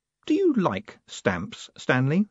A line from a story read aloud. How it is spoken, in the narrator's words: said Moist kindly